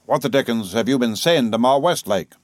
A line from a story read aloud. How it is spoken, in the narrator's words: growled